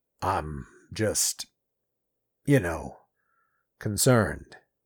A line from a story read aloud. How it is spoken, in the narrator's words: he said weakly